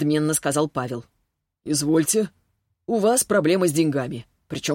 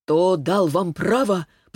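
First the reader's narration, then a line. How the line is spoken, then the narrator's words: Wheezing rasp. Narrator (Russian): просипел Павел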